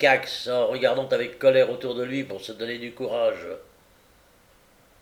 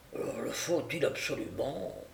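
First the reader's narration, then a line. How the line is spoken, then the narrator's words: Muffled question. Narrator (French): demanda l'autre d'une voix étouffée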